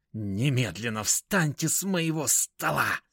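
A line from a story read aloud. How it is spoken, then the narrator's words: Hissing. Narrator (Russian): прошипел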